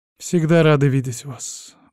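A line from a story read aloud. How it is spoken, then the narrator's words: Glum reply. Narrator (Russian): уныло ответила хозяюшка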